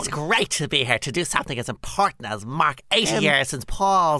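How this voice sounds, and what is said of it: Silly mocking imitation voice. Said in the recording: “You're making fun of both of us ... doing that silly voice”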